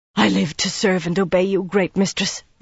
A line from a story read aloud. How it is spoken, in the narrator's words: Alviarin panted between kisses